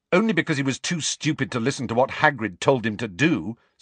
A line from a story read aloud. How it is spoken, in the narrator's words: said Harry angrily